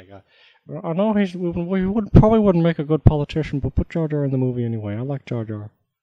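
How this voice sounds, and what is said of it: George Lucas impression. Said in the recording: “my fantastic impression of George”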